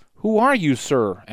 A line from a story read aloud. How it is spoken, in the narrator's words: asked the wife, or rather started to ask